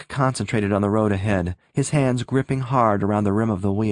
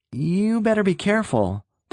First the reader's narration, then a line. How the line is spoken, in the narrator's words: the youth warned in a troubled voice